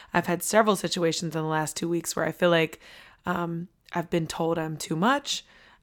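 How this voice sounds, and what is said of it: Hoarse, strained voice. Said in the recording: “it has resulted in me losing my voice once again”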